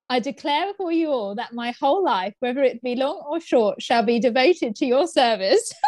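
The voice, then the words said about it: Posh imitation of another person's voice. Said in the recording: “you got to do the Queen's voice ... I think you've got a bit of work to do getting it even posher”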